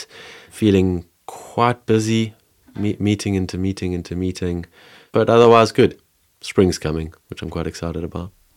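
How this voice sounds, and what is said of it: Voice affected by a cold. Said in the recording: “I'm just coming out of a cold... coming out of a cold, maybe you can hear that in my voice.”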